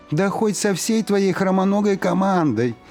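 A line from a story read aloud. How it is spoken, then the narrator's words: Shouted back. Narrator (Russian): крикнул тот в ответ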